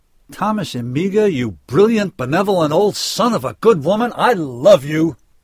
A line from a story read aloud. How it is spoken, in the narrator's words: drew in a great belly full of air, threw back his head, and bellowed to the emerging stars